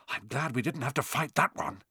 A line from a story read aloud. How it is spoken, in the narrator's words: Harry whispered